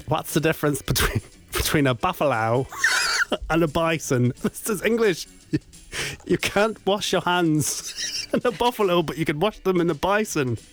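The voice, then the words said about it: Attempted Australian accent. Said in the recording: “Australian accent ... You can never criticise any accents I do from now on”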